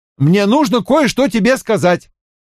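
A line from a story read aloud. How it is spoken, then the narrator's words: Shout. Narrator (Russian): я крикнул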